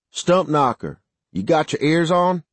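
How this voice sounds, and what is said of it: Thick southern accent. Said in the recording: “A thick southern accent drifted out of the speaker.”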